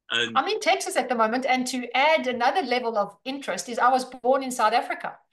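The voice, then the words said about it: Australian accent. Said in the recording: “your accent from Australia”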